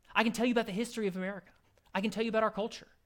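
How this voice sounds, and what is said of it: American English accent. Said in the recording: “I have an American accent.”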